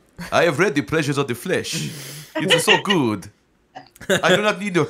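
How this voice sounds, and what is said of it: Put-on Transylvanian accent. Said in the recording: “now you sound like you own a jewelry place ... this is the accent I'm doing ... So everything you do sounds Transylvanian in the end”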